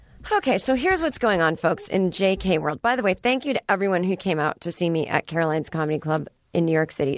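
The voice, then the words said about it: Voice sounds bad, strained. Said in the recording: “my voice is so bad”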